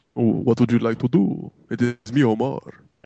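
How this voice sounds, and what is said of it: Made-up Dracula-like accent. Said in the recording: “Why is ... Dracula? ... That was a Dracula accent? ... I had no idea what accent that was. I just kind of made it up.”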